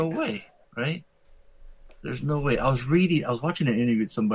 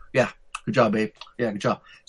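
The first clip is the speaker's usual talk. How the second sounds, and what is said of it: Gum-chewing Jason Sudeikis impression. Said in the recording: “Jason Sudeikis always chews gum. He's always talking that.”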